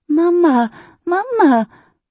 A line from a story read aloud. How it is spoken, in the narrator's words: The little girl cries